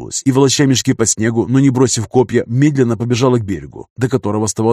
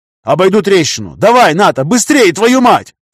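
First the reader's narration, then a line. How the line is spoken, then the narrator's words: Yelled. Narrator (Russian): Заорал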